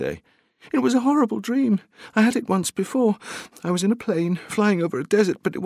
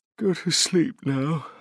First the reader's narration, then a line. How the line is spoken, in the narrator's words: said through a yawn